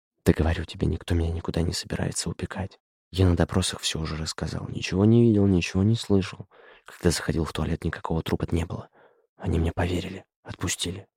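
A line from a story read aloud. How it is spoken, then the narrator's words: Frightened whisper. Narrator (Russian): испуганно шептал Равиль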